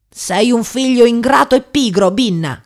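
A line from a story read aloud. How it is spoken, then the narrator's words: Furious woman shouting. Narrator (Italian): gridò la donna infuriata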